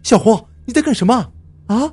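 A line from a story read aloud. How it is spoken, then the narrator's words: Dejected scream. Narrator (Chinese): 我终于气馁的……尖叫道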